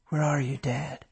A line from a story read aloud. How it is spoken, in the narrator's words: He whispered